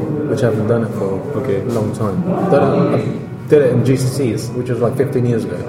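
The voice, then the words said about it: British accent. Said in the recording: “You can't tell from your voice, I'm sorry, it's just all British.”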